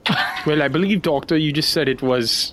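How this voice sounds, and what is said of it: Accent drifting from Southern to British. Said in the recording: “I don't know what this accent is. I lost it all. ... Southern to like British proper.”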